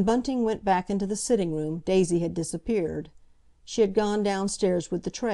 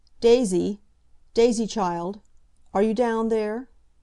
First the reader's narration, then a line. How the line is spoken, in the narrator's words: called out sharply